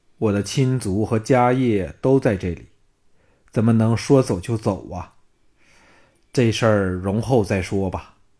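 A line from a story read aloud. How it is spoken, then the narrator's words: Sighing. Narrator (Chinese): 夏汝章叹道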